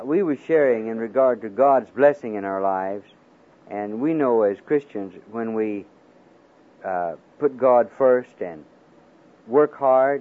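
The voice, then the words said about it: Alabama accent mixed with Kiwi. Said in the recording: “this Alabama accent mixed with Kiwi and whatever”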